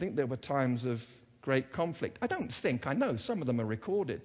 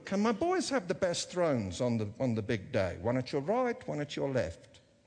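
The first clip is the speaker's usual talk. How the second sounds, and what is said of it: Put-on Jewish accent, sounds South African. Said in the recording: “That, by the way, was a Jewish accent. ... that sounded like a drunk South African.”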